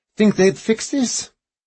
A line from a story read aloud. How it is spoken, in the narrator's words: Harrigan laughed